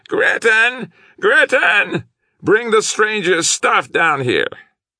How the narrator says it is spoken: his voice going up almost into a shriek, he yelled

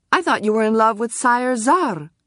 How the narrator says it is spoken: blurted out

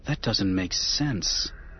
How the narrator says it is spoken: Anakin muttered

